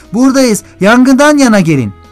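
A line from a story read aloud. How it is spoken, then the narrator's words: Began shouting. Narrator (Turkish): diye bağırmaya girişti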